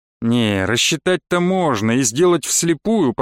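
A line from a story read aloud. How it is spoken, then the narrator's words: Mutter. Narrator (Russian): пробурчал Вадим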